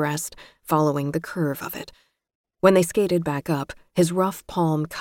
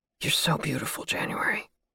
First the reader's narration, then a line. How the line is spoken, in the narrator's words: he whispered